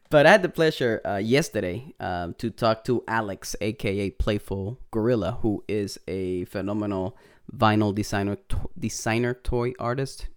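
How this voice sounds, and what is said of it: Strong Puerto Rican accent. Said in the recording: “my Puerto Rican accent is coming in real hard”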